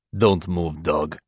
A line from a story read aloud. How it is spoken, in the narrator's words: Igor hisses